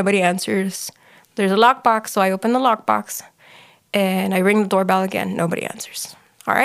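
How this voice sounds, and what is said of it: Usual voice. Nothing is said of it.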